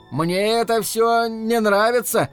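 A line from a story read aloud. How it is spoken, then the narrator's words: Unsure but loud. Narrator (Russian): неуверенно, хотя и громко произнес Рики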